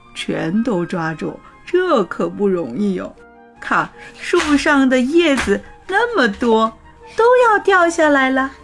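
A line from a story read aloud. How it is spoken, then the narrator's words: Smiling. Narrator (Chinese): 狐狸爸爸笑着说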